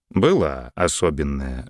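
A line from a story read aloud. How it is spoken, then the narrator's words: Even-voiced reply. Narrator (Russian): ровным голосом ответил граф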